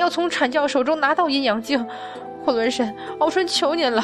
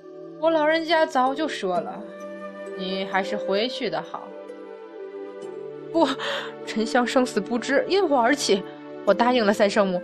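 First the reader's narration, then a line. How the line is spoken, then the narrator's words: Echoing leisurely sigh. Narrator (Chinese): 洞窟内传来的声音再次悠然而叹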